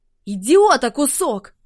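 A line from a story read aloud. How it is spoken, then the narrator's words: Barked. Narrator (Russian): рявкнула она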